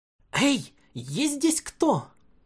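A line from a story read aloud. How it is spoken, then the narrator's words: Uncertain shout into emptiness. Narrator (Russian): Неуверенно крикнула она в пустоту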